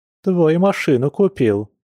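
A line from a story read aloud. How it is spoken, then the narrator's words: Cheerful explanation. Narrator (Russian): весело пояснила подруга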